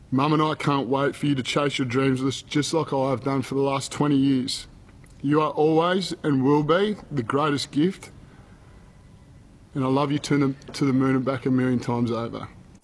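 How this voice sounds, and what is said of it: Emotional, moved voice. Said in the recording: “got a bit emotional”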